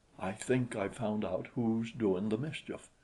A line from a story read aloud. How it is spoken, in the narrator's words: he whispered